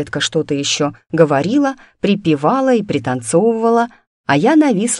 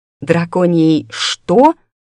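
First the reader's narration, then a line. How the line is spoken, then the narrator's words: Growling. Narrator (Russian): рыкнула я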